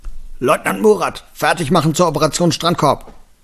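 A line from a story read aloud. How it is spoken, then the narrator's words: Boy bellowing back. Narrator (German): Der dunklere Junge brüllte zurück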